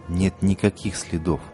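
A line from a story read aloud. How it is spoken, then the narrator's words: Quiet. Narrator (Russian): по-прежнему тихо повторил индеец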